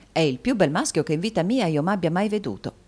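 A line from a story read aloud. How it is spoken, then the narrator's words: Plain. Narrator (Italian): disse il dottore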